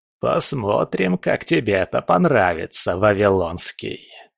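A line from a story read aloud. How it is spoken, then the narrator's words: Hissing. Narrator (Russian): прошипел папа Легба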